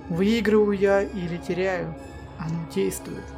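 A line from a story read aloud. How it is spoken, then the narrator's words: Plain. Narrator (Russian): сказал Джек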